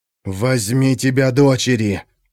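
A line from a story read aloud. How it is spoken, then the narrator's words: Growling. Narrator (Russian): прорычал Трана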